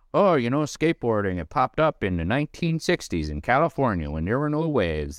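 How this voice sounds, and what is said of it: Put-on Northwoods accent. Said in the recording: “I don't know why I did my Northwoods accent with that”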